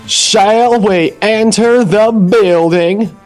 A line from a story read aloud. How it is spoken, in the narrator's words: He said in his most fancy voice